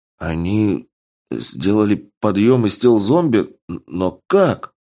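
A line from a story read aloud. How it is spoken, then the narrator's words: Horrified mumble, young man. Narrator (Russian): с ужасом в глазах промямлил юноша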